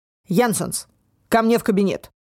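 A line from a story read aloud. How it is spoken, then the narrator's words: Barked even louder. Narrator (Russian): Еще громче рявкнул Деккер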